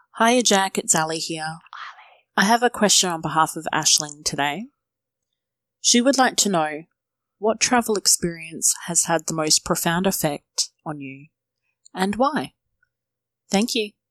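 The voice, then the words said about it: Distinctive accent. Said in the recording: “voice... I love this accent”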